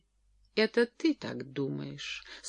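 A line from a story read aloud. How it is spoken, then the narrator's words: Calm reply. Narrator (Russian): спокойно ответила Джоан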